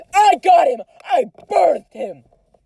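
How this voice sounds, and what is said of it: Yelling loudly, mock argument. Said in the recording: “we're yelling really loudly ... It probably seems like we're actually having a fight”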